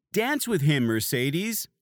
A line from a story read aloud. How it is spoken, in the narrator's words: called out